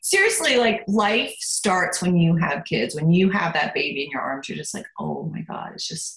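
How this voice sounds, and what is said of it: Emotional, choked-up voice. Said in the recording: “I'm going to get emotional. Don't make me emotional ... listen to me, I'm getting emotional.”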